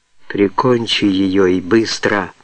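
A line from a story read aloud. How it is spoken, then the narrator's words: Whispered. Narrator (Russian): шепнул Тома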